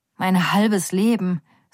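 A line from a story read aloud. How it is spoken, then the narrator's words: Sighed. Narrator (German): seufzt Roya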